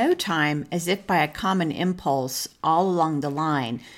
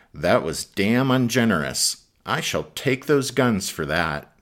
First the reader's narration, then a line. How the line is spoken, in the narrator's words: Sheridan, who grumbled